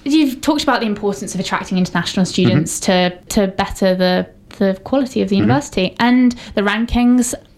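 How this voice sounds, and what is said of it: Foreign, non-local accent. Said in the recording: “I'm also an international student, if my accent didn't already give it away.”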